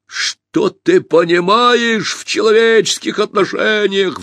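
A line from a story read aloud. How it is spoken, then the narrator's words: Roaring. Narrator (Russian): взревел Пашка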